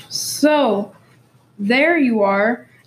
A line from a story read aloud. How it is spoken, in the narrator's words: shouted Simon